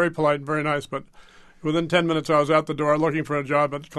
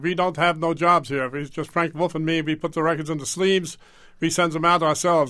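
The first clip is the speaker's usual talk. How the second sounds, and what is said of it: Imitated German accent. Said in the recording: “in this German accent.”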